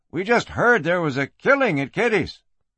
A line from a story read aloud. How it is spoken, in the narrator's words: Garraway said anxiously